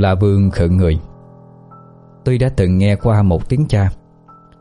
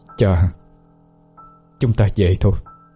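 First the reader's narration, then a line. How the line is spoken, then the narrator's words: Quiet, very tired. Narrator (Vietnamese): Cương với vẻ rất mệt mỏi, chỉ nhỏ giọng nói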